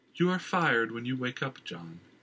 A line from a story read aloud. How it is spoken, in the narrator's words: she said in a clear, melodic voice, with only the slightest hint of an Oran accent